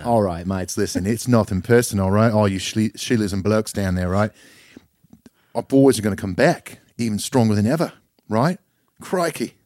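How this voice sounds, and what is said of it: Put-on Australian accent. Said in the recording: “half saying mates in a half Australian accent”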